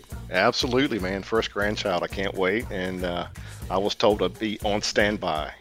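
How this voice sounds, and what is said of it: Slight Southern drawl. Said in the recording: “a little bit of Southern drawl ... I've heard I have a little bit of an accent. ... You definitely have a recognizable voice.”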